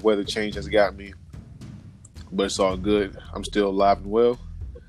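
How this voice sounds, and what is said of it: Sick-sounding voice. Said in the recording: “I sound sick. ... I'm a little bit under the weather.”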